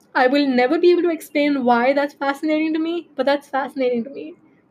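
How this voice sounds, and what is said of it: Indian English accent. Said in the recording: “I have an Indian accent”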